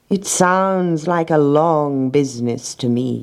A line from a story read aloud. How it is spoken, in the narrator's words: said